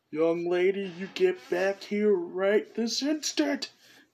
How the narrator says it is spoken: he yelled at me as he ran

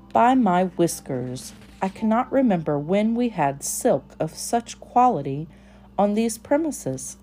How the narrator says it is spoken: exclaimed the little mouse

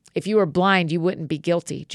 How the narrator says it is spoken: Jesus replied

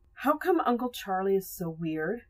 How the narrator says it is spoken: Dad snorted

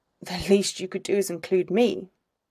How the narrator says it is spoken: murmurs, voice a little ragged

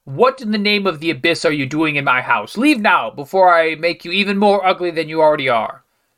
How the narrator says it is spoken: In a loud, booming voice, Braskin asks

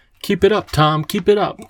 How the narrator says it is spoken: cried the professor

